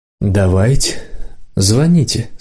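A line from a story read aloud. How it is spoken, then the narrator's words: Through gritted teeth. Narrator (Russian): сказал моложавый сквозь зубы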